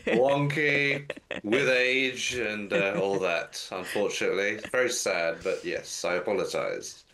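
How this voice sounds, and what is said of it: Nasal, congested voice. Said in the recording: “if I sound a bit nasally. I've caught a bit of a cold”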